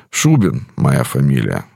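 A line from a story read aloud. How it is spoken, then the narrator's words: Calm reply. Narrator (Russian): спокойно ответил тот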